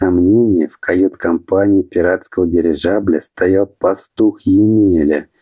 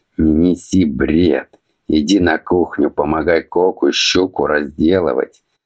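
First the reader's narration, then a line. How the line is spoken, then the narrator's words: Huge man grumbling. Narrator (Russian): снова проворчал громадный подручный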